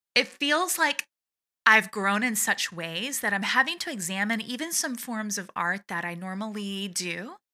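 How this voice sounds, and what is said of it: Emotional, choked-up voice. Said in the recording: “getting emotional. And I was not expecting to get emotional”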